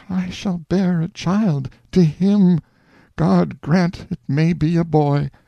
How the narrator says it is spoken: She moaned to herself

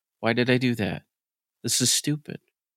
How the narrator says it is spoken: he ... muttering to himself

